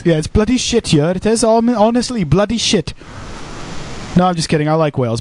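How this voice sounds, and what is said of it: Welsh accent. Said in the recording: “say potato in a Welsh accent ... That's a Welsh accent.”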